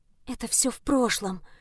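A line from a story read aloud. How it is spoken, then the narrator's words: Whisper. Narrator (Russian): шепнула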